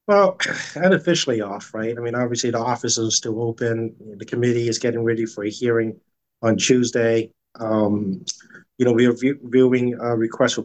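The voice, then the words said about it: Slightly craggly, rough voice. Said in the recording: “my voice is a little more craggly than normal ... the pollen count is high ... allergy sufferers will sympathize with you”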